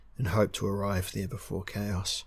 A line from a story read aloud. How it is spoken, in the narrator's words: said Valshun wearily